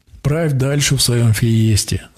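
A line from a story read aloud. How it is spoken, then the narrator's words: Laughing. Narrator (Russian): засмеялся я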